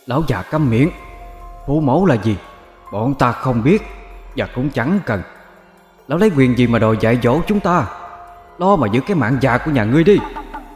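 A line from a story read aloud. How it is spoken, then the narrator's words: Shrill screaming crowd. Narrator (Vietnamese): Chúng hét lên một cách chói tai, gào xuống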